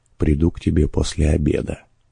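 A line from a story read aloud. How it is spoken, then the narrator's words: Quiet addition. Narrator (Russian): она тихо прибавила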